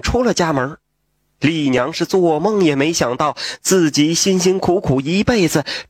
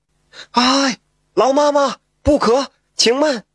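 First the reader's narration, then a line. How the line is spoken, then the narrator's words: Scholar calling out. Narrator (Chinese): 一位书生，喊道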